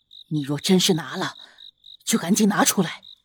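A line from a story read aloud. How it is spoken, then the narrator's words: Lowered voice. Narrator (Chinese): 压低声音道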